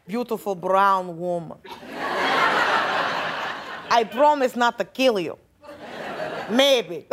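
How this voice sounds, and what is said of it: Imitation of Putin's Russian accent. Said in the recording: “Putin ... he's got that cute accent.”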